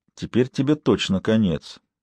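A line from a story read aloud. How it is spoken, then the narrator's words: Quiet. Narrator (Russian): тихо сказал Лунд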